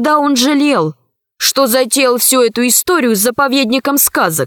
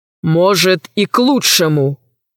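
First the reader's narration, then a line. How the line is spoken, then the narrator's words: Grim. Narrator (Russian): сказал мрачно Иван Иваныч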